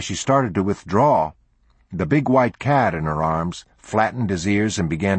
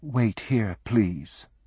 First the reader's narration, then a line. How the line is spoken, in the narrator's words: She said coolly